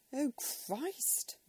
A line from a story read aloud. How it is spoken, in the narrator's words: moaned Monica